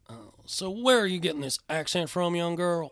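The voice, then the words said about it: Poor Dr. Phil impression, southern. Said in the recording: “Can we get a little Dr. Phil? ... Dr. Phil damn sure doesn't sound like that ... he sounds like is just a southern idiot ... You just changed your voice randomly.”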